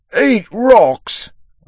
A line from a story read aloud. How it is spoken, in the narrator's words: the dwarf roared